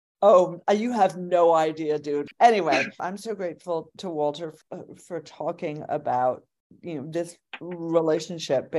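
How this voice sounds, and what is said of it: Australian accent coming out. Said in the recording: “her accent was coming out, it's because she's among her people.”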